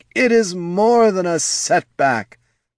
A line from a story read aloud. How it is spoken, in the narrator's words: moaned Handor